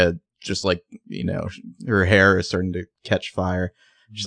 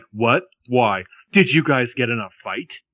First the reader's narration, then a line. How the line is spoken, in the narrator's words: scoffs, and then she's like